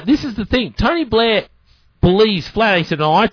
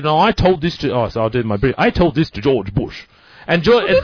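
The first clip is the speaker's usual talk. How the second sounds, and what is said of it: Poor Tony Blair impression, English accent. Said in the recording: “That is so Tony Blair ... I thought you'd actually changed into Tony Blair ... your English accent wasn't so good? ... It's really shit.”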